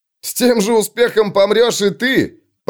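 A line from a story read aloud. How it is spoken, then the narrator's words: Shouted. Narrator (Russian): прокричал кто-то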